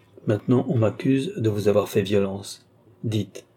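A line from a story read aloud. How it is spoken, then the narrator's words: Soft yet commanding voice. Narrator (French): dit le comte d'une voix douce, mais dans laquelle, néanmoins, l'accent du commandement se faisait sentir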